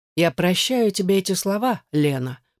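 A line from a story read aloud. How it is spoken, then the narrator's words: Icy tone. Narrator (Russian): произнес ледяным тоном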